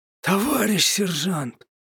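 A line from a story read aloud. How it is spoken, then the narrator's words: Frightened wail. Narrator (Russian): испуганно заголосил тот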